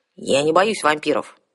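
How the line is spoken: Snapped. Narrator (Russian): огрызнулась девушка

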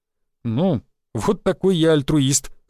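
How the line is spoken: Snorting. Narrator (Russian): хмыкнул я

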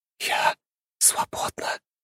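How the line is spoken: Soundless mouthed whisper. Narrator (Russian): одними губами прошептала Лиза

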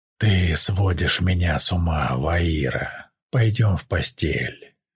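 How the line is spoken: Hoarse. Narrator (Russian): хрипло сказал Тай

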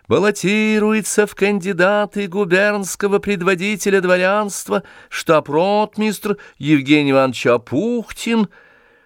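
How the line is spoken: Thin loud proclamation. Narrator (Russian): человек в мундире и тонким громким голосом провозглашал

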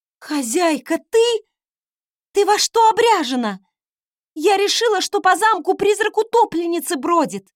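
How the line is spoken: Exclaiming. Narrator (Russian): воскликнула та

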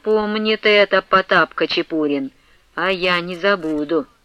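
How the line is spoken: Spiteful. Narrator (Russian): поп злобно примолвил

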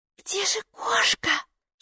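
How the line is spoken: Whispered. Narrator (Russian): шепнула Майки

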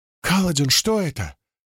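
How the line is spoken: Exclaimed. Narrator (Russian): воскликнула Сил

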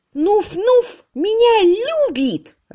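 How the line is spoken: Heated shouting. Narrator (Russian): распаляясь, закричала Панталоша

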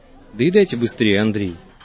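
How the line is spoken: Disgusted mutter. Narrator (Russian): брезгливо пробормотал Вайсберг

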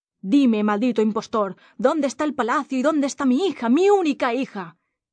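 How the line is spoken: Sultan shouting angrily. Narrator (Spanish): el sultán le gritó

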